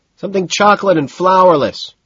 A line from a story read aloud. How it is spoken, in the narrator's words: shouts back